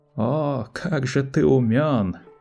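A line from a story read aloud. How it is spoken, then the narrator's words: Drawled. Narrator (Russian): протянул Малки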